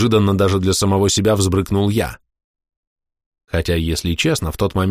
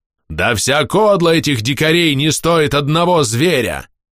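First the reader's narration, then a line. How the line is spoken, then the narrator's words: Roar. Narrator (Russian): прорычал начальник корпуса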